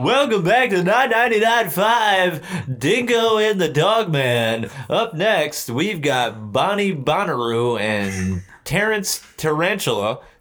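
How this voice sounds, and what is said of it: Compressed radio DJ voice. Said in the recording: “this just sounds really compressed ... It sounds crispy ... It's radio voice”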